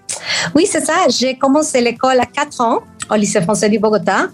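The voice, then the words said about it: Colombian accent in French. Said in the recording (French): “Tu es d'abord colombienne, d'où ce petit accent magnifique.”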